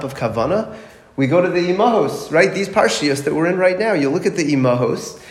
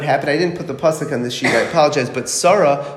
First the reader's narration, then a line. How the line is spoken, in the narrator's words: she laughed